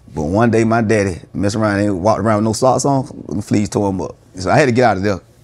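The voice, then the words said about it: Country South Georgia accent. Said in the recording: “When did you learn to embrace your accent? Because, you know, we rule South Georgia. ... that's when they really started calling me country. ... you don't sound like you from the A”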